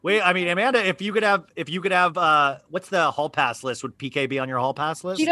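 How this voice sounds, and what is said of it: Usual voice. Nothing is said of it.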